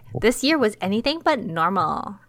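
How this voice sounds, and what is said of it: Valley Girl voice. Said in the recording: “I don't know why I'm using a Valley Girl voice.”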